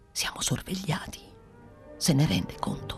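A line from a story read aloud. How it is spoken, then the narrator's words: Whispered addition. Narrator (Italian): soggiunse bisbigliando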